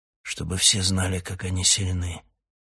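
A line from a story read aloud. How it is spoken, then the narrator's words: Hoarse grumble. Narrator (Russian): хрипло буркнул Раканон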